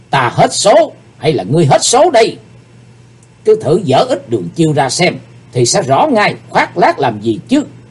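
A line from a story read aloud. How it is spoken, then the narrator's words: Hateful shout. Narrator (Vietnamese): Chí Tôn, chàng căm hận hét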